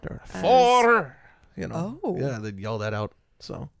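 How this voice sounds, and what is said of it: Put-on Scottish accent. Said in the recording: “I'm digging the accent ... You are so much better at voices than I am”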